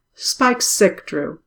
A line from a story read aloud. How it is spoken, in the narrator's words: Angelus said